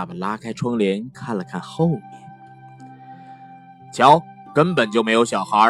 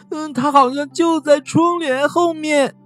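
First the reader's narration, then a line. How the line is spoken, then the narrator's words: Loud sobbing. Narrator (Chinese): 比利大哭道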